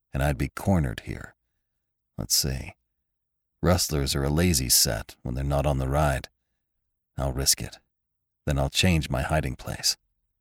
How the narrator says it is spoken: he muttered

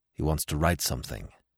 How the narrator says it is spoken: said Smith in a low voice

